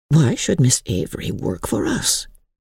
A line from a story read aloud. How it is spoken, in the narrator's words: Helen murmured